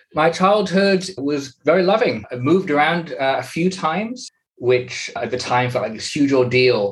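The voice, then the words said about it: English accent. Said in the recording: “they will quickly ascertain from your accent that you're English”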